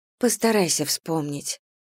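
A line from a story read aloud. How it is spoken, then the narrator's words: Gentle request. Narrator (Russian): мягко попросила сестра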